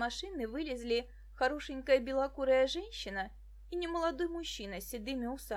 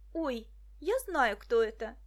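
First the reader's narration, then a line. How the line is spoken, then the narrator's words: Exclamation. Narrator (Russian): воскликнула Муся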